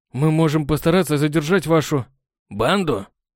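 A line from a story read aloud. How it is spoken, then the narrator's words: Sarcastic snort. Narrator (Russian): Саркастически хмыкнул тот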